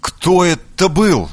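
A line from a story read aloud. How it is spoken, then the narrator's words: Trembling voice asking. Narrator (Russian): дрожащим голосом спросил соперник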